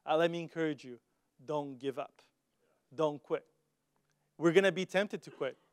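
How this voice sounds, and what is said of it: Strong foreign accent. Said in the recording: “You don't have to deal with like a crazy accent.”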